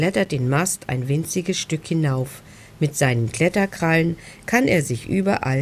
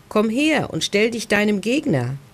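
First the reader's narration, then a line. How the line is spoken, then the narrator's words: Calling out. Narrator (German): ruft Beppo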